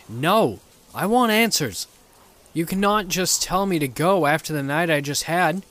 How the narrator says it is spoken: yelled back

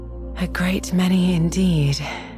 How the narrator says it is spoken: said her companion with a sigh

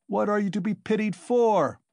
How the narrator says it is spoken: shouted the tavern-keeper

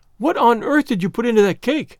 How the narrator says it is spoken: she exclaimed

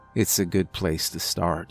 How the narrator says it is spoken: mumbled

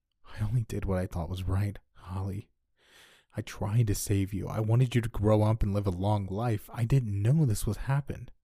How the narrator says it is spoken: I said, sobbing

